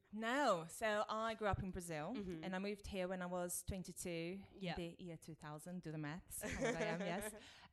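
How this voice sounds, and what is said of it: Foreign accent. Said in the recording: “You have an accent.”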